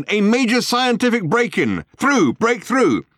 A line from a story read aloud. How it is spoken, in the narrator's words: barked the megaphone